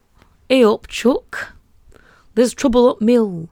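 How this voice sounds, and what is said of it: Put-on Yorkshire accent. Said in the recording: “I'm doing Danny's dad voice... I am doing an impression of Michael Palin from Monty Python as a Yorkshire person”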